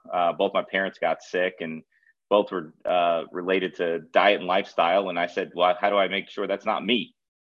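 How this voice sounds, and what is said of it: Non-Californian regional accent. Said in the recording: “With that accent, just for fun, you're not from California.”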